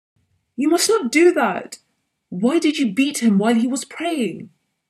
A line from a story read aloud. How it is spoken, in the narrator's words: felt so sorry, shouted